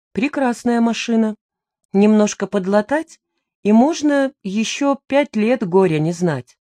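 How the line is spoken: Calm reply. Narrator (Russian): незнакомец спокойно ответил

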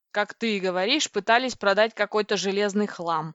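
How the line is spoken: Growl. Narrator (Russian): рыкнул Пи

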